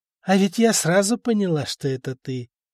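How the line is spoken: Tired. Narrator (Russian): как-то устало сказала Стана

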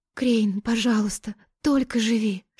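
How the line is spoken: Tearful whisper. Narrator (Russian): Шептала Тая, чувствуя, как глаза застилают слезы

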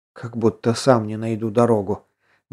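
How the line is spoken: Muttering to himself. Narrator (Russian): буркнул про себя Воронцов

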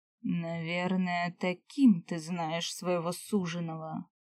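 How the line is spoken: Muffled question. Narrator (Russian): глухо спросил он, не оборачиваясь

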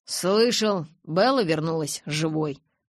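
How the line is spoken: Plain. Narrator (Russian): сказал я

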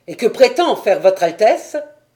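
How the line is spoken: Impatient exclamation. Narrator (French): s'écria impatiemment La Fontenelle

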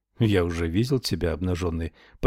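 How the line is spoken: Mumbled. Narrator (Russian): пробормотал он

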